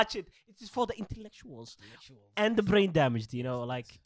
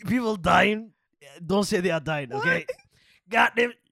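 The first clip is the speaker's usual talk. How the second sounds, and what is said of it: Cartoon character voice slipping into Southern accent. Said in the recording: “it became a Southerner's accent all of a sudden. I gotta do something about the Southerner's accent. It's getting worse”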